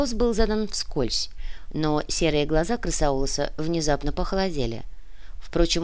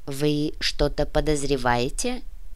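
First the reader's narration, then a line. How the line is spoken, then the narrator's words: Even-toned inquiry. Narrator (Russian): ровным голосом осведомился Крысаулос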